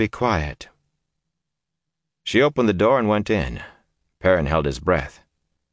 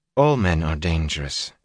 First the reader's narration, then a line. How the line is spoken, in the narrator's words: she replied in a cool voice